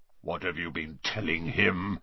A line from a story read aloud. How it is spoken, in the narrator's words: growled Bane